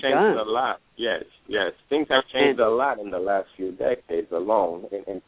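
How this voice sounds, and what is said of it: Foreign accent. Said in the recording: “I was trying to place the accent. I couldn't figure out where it was.”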